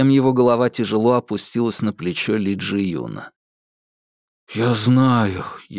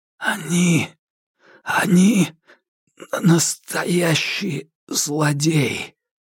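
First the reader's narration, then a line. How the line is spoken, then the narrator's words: Breathless whisper in ear. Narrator (Russian): Джоу Липин прижался губами к уху Ли Джи Юна и, задыхаясь, прошептал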